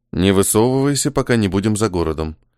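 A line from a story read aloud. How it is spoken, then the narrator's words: Whisper. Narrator (Russian): прошептал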